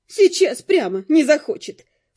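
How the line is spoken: Snorted. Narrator (Russian): фыркнула Нет

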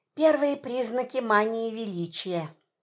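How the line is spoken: Whispered. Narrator (Russian): шепнула я Федору

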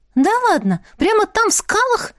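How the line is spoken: Exclaimed. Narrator (Russian): воскликнула Аиса

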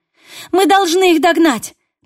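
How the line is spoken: Woman shouting. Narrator (Russian): крикнула она

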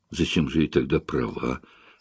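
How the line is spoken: Strange mutter. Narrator (Russian): пробормотала странно

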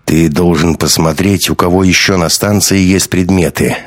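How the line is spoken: Plain. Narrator (Russian): ответил Гумилев

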